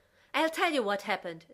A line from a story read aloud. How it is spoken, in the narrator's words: Zoe shouted